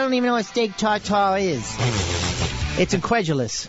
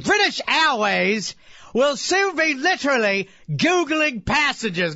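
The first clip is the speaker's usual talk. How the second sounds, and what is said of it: Put-on British newsreader accent. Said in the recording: “Can you at least do this in a British accent? ... Richard Quest”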